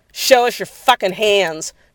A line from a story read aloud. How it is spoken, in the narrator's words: shouted rushing forward